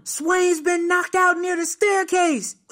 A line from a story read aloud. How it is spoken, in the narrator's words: some white kid yelling